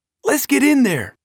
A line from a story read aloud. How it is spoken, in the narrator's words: exclaimed